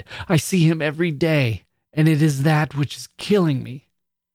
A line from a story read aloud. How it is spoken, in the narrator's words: she cried